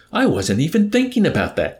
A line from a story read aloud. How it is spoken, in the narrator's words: cried the colonel